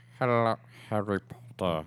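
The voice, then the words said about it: Imitates another person's voice. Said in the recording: “your best Alan Rickman impression. ... This is Alan Rickman.”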